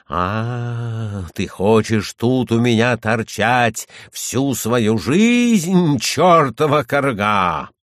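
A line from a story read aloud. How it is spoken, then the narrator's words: Terrifying shouting. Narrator (Russian): Он страшным голосом кричал на нее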